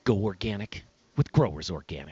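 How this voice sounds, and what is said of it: Fairly good imitation of another's voice. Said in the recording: “my impression of Brian Freeman? ... That's actually good. ... Isn't that pretty good? ... really ... Good.”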